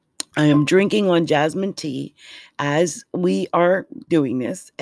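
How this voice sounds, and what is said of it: Hoarse voice. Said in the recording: “my voice is hoarse? My voice is hoarse.”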